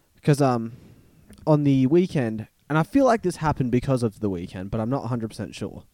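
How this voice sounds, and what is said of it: Rough, strained voice. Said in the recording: “my voice is a little bit fucked up still”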